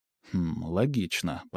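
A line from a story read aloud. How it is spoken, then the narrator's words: Muttered. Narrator (Russian): пробормотал я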